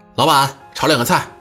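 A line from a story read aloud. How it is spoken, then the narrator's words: Calling out. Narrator (Chinese): 朝厨房里喊了一声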